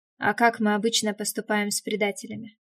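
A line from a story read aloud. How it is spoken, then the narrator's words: Grim question. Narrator (Russian): спросил мрачно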